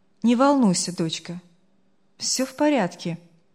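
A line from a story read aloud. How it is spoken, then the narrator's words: Older voice, nearly calm. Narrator (Russian): голос постарше почти спокойно ответил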